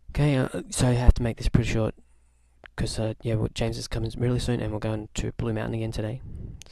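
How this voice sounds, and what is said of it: Slurry, dodgy morning speech. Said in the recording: “My accent really is pretty slurry and dodgy at this time of the morning”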